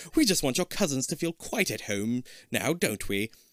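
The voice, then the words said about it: Put-on British accent. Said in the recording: “he apologizes in his best British accent.”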